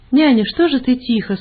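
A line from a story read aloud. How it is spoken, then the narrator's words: Cheerful asking. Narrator (Russian): спрашивали мы уже весело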